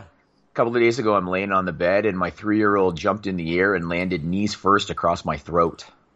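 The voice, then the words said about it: Raspy voice. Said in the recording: “I got a bit of a raspy voice today... I've been talking like this for a few days.”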